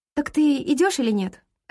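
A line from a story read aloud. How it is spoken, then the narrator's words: Sharp, irritated, hiding nerves. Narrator (Russian): резко спрашиваю я, скрывая волнение за раздражением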